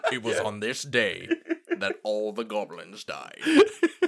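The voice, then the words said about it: Morgan Freeman impression, narrator voice. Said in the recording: “My very good Morgan Freeman impression.”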